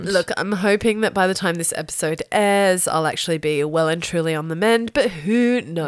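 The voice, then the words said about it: Unusually deep voice. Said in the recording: “I have to excuse my deep, deep voice ... I'm sick”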